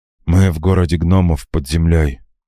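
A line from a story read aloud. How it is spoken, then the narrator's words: Tired. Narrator (Russian): устало произнес Джан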